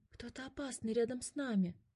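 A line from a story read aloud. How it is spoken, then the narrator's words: Whisper. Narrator (Russian): прошептал Котя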